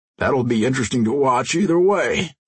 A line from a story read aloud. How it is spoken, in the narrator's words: Crusher yawned